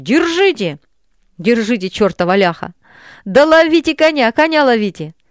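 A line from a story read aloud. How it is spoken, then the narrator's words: Half-asleep shouting at full volume. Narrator (Russian): в спросонках закричал, что было мочи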